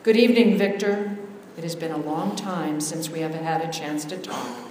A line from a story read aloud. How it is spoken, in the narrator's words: the old man said softly